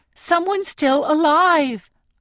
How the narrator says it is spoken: I plead

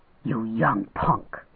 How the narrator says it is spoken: he hissed

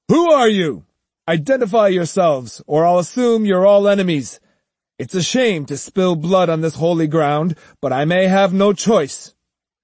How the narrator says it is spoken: His voice stentorian, Musashi shouted

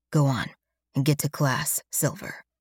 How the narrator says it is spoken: Alex says grimly, clenching his jaw

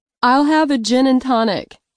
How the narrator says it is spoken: I shouted

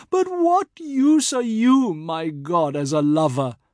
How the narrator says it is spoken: Padma, who once in her anger cried out

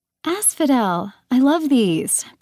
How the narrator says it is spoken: Persephone exclaimed

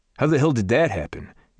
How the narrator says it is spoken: Garrett snapped, like Warren controlled the weather

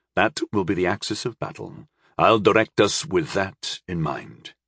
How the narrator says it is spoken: he said firmly

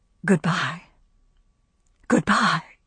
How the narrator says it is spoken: All the homely, well-loved articles of furniture seemed to whisper

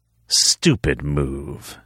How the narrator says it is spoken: Xander sneered

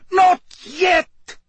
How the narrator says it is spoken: cried Karkaroff, looking quite desperate

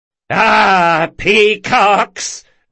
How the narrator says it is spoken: roared the heckler over the laughter of the folk around him

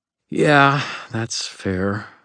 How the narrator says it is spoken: I breathed

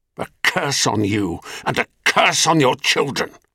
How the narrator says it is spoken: spat Gaia

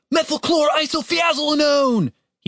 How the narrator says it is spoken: He shouted

